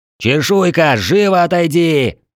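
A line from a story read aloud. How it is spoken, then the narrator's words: Straining throat, yelling. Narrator (Russian): надрывая горло, закричал я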